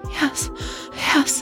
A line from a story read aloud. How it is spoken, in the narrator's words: Natalie panting